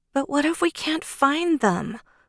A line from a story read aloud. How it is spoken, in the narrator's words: Allegra whined